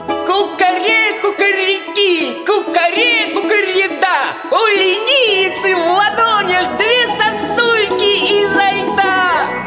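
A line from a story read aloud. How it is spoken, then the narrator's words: Loud crowing shout. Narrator (Russian): петух громко закричал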